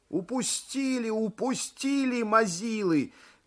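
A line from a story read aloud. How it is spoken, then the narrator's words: Shouting. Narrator (Russian): кричал один из Тонтоныча группы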